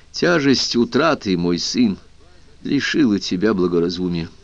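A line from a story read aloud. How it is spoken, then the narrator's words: Soft, sad, weary. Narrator (Russian): Мягко, грустно и устало сказал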